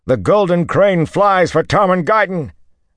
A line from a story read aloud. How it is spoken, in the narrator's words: Manigan shouted